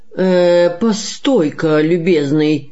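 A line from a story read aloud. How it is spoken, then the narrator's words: Commanding drawling bass. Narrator (Russian): начальственным басом протянул толстый господин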